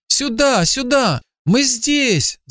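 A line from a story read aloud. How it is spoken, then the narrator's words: Shouted, boy. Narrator (Russian): закричал мальчик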